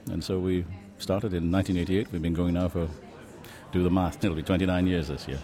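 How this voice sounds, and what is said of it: Scottish accent. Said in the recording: “if you hear Scottish in his accent, you wouldn't be wrong.”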